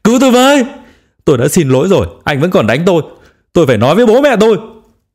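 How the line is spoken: Wailing, crying. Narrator (Vietnamese): gào khóc

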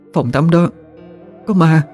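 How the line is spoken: Trembling voice. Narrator (Vietnamese): Diễm run run nói ra

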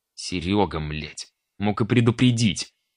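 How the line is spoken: Growled. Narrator (Russian): рыкнул я на него

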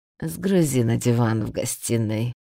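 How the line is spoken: Lazy. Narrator (Russian): лениво заметил Рид

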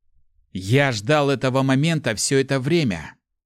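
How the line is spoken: Malicious young man. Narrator (Russian): злобно произнес парень

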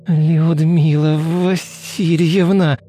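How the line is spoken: Hateful moan. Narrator (Russian): с ненавистью простонала Дарья

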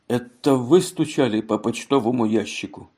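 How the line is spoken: Surprised mutter. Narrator (Russian): У него был удивленный вид, и Элли пробормотал

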